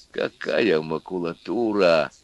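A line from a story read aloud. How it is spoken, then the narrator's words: Quiet exclamation. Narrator (Russian): тихо воскликнул лысый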